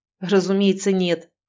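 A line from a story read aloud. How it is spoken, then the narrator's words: Scoffing snort. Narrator (Russian): фыркнул Галеев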